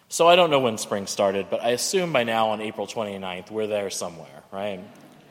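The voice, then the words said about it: Slightly hoarse, fading voice. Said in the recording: “I'm losing my voice a little”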